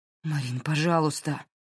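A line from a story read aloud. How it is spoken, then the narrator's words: Terrified pleading. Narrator (Russian): охваченный ужасом взмолился Дерек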